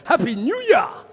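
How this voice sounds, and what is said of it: Bad put-on South African accent. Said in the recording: “That's a South African accent, a very bad one.”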